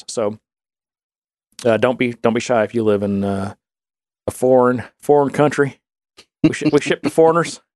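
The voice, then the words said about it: Put-on Texan accent. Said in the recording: “Why do you switch accents? ... The Texan in me”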